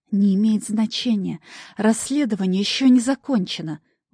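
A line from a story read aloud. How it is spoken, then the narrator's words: Objecting hiss. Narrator (Russian): возражающе зашипела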